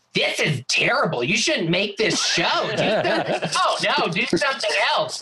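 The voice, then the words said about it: Imitates another person's voice. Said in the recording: “That's a really good Andy impression.”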